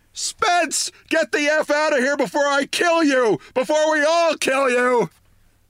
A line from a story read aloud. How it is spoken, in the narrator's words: our nicest, sweetest news editor screamed